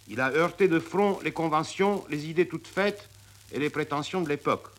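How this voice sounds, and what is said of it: Romanian-accented French. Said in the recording (French): “Tzara a gardé son accent roumain”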